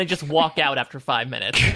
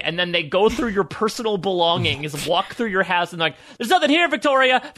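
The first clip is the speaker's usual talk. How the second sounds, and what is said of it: Angry yelling. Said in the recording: “I'm mad and I'm yelling.”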